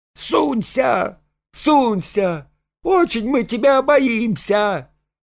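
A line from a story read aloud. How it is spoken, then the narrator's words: Ringing shout. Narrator (Russian): звонко закричала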